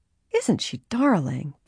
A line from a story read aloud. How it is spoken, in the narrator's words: Bess murmured